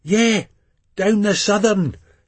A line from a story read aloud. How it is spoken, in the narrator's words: Jill shouts